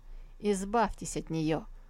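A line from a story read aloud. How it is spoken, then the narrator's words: Curt, dry. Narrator (Russian): бросил он сухо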